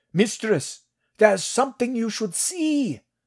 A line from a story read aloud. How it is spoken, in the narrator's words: one of the scouts called out